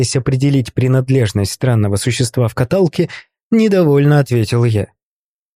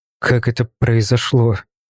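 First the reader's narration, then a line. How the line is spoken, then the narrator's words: Brief question after deep breaths. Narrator (Russian): Пару раз глубоко вздохнув, коротко спросил я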